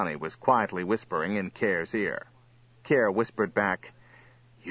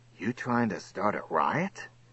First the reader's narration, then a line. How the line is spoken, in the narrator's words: Kerr said loudly to Chirk